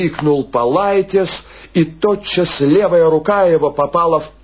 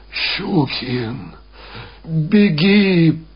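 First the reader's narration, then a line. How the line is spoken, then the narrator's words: Sobbing mumble. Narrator (Russian): промычал он, всхлипывая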